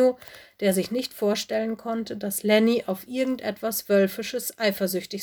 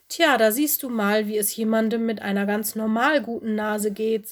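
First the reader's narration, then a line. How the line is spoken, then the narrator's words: Plain. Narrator (German): sagte Lenny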